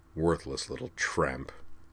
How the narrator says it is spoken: he muttered

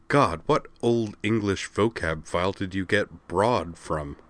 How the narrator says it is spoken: Kozue asked

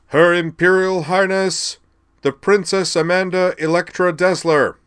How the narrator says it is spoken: the chamberlain, standing near the grand entrance, boomed

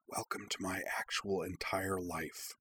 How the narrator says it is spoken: Iki whispering

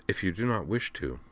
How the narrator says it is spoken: she said calmly

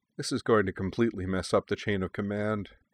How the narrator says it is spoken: Barkhorn mumbled, her eyes like saucers

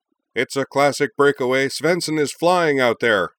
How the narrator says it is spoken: The play-by-play man, the venerable and still wondrously excitable Professor Jim Everard, cried

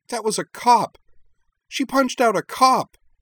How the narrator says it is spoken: Shiori cried

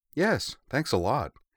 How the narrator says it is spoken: Yui agreed

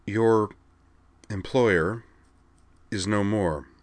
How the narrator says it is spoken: Amanda informed him evenly

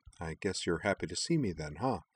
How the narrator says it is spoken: Shepard replied quietly

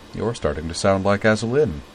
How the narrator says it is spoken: she said dryly

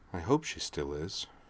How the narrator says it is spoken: added quietly

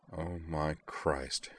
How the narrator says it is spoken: Griffin murmured, tears rolling down his face

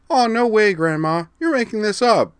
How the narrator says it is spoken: she ... chirped

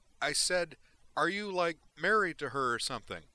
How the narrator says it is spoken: Harriet asked more loudly

